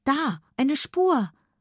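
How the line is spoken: Excited. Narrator (German): aufgeregt

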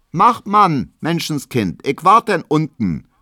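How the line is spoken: Calling out. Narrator (German): ruft Hedwig noch

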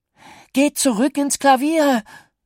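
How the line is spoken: Call. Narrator (German): rief er

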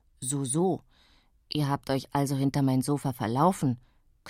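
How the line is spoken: Growled. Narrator (German): knurrte Kaczmarek

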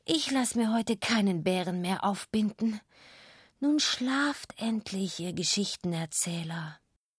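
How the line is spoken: Woken, mildly exasperated mother. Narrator (German): Meine Mutter wird wach von der Flüsterei und sagt

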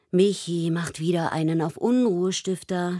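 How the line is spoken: Groaning. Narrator (German): stöhnt Paula

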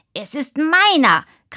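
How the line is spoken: Shrieking. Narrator (German): kreischte Moritz

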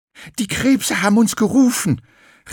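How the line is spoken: Breathless call. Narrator (German): rief Graugans völlig außer Atem

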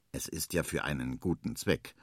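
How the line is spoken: Quiet murmur. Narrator (German): murmelt es leise

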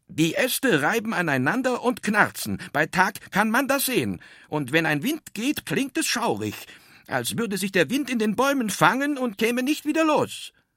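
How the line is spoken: Very loud explaining. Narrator (German): sagte sehr laut und erklärte

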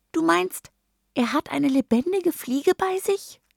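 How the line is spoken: Squeaky voice. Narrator (German): piepst Mini-Ursel

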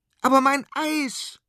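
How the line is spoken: Child shouting back. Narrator (German): schreit der kleine Konrad zurück

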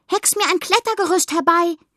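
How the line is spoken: Calling out. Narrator (German): rief der großen Hexe zu

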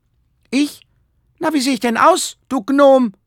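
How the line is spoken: Called out. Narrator (German): rief Herr Paul

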